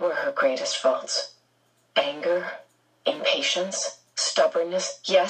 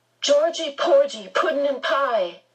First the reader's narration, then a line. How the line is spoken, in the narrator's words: she yelled